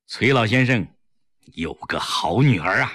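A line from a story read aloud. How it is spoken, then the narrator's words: Sudden admiring sigh. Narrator (Chinese): 另一个民主人士忽然感叹道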